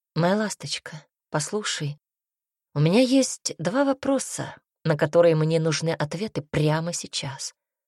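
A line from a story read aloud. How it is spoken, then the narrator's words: Quiet, composed after agitation. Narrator (Russian): произнес тихо, наконец победив свое волнение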